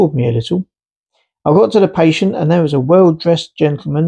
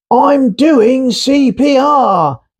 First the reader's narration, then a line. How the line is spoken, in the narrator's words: shouted again, clearly panicked